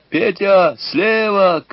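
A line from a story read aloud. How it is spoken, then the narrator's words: Shout. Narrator (Russian): крикнул он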